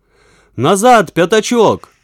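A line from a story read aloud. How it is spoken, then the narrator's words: Shout. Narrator (Russian): закричал Веня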